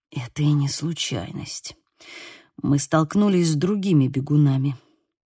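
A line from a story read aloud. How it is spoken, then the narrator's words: Whispered, patience nearly snapping. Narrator (Russian): прошептал Бейл, и по голосу его я поняла, что его терпение висело на волоске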